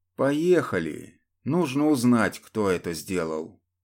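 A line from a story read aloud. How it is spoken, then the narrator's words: Calm. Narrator (Russian): спокойно произнес капитан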